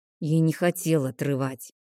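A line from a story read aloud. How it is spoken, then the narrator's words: Quiet mutter. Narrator (Russian): негромко пробурчал он себе под нос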